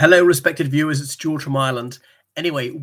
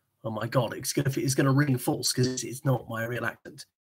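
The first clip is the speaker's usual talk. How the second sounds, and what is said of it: Exaggerated super posh accent. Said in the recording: “the super posh accent, but actually do it in that pucker accent ... turn up the plum factor several steps”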